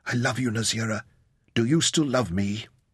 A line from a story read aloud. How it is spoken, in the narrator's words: Even in her extremity, Amber whispered to her